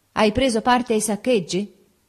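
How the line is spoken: Shout. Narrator (Italian): un amico mi gridò

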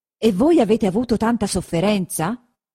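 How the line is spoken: Exclaimed. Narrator (Italian): esclamò il conte Attilio

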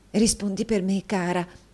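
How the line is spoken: Whispered. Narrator (Italian): bisbigliò

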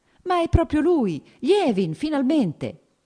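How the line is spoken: Warmly teasing exclamation. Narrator (Italian): esclamò con un sorriso cordialmente canzonatorio

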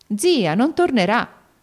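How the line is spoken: Exclaimed. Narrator (Italian): esclamò alla fine

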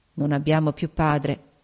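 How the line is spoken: Murmured. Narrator (Italian): mormorò

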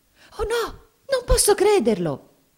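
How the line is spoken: Frightened exclamation. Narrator (Italian): esclamò Mamie impaurita

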